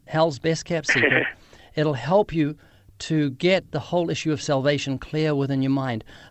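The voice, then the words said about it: Speaks with a noticeable accent. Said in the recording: “My accent.”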